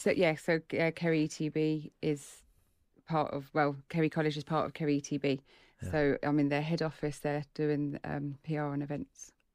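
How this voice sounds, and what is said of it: English accent with slight Irish twang. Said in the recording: “Is that a beautiful English accent you have? ... my English friends would say it's a bit of an Irish twang with it now these days”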